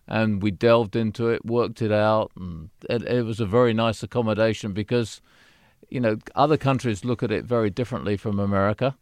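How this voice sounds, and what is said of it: British accent. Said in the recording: “I sound very British”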